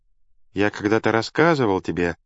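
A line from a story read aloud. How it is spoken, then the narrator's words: Calm even teacherly voice. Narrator (Russian): продолжал Сенека спокойным, ровным голосом учителя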